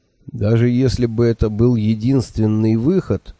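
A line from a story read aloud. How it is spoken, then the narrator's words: Doubtful drawl. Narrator (Russian): с сомнением протянул я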